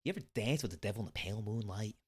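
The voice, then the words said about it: Jack Nicholson impression. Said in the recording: “That's my Jack Nicholson... It's not a bad Nicholson... Usually mine is”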